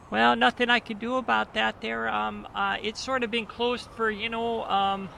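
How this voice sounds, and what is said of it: Canadian accent. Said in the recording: “I was drifting into Canadian again.”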